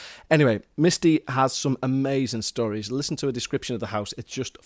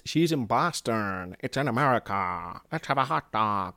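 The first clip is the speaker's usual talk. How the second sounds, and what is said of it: Poor attempt at American accent. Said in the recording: “I still can't do the accent. I'm not going to try anymore. It's quite offensive.”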